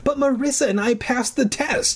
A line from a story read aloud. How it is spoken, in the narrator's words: I wailed